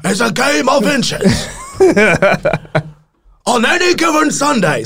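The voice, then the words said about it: Bad impression of Any Given Sunday speech. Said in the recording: “the speech from Any Given Sunday ... that's a really bad impression”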